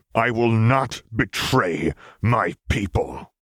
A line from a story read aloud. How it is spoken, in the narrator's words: Garen hissed